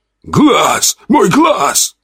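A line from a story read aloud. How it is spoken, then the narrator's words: Small creature screaming. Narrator (Russian): вопил зеленый коротышка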